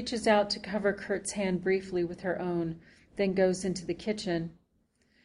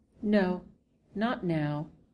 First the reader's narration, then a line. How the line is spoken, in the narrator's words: she says